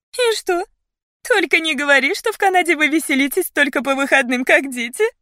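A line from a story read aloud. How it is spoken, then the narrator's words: Giggling behind her hand. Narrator (Russian): Хихикнула она, прикрыв губы тонкими пальчиками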